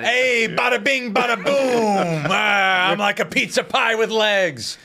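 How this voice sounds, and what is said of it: Exaggerated New York accent. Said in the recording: “He has a New York accent.”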